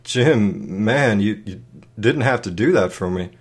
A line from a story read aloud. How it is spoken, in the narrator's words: managed to stutter